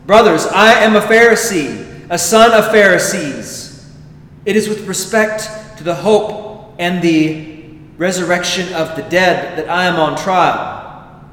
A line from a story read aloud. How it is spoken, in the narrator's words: he cried out in the council